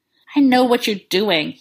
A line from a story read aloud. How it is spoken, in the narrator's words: he panted accusingly